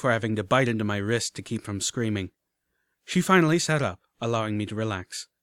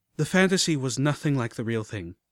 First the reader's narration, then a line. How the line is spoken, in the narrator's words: I sighed